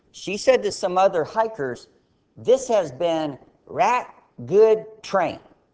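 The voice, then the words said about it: Imitated American Southern accent. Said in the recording (Chinese): “a girl from the south with a southern accent ... 她有南方的口音 ... 有些人听不懂她南方口音”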